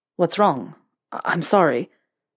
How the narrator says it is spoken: he sputtered

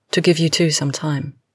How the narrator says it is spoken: murmurs

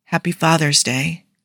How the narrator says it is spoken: Tony said softly

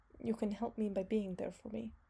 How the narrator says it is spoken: he muttered

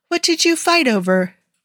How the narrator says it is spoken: Bucky sighed

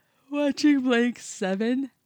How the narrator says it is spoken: he said, yawning

